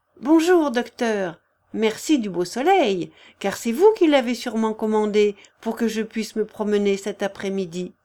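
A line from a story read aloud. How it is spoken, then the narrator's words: Cheerful. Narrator (French): Puis gaiement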